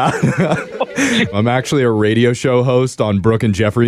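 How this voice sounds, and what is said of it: Usual voice. Nothing is said of it.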